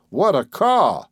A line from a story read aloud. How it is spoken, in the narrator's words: cried John again in amazement